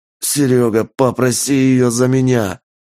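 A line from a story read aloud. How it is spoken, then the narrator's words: Hoarse rasp. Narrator (Russian): Прохрипел мужик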